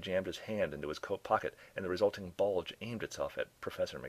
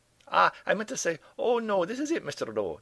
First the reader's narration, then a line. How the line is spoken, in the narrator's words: the professor corrected himself nervously